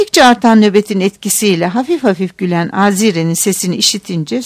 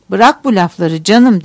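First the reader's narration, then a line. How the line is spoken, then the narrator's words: Plain. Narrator (Turkish): dedi Etyen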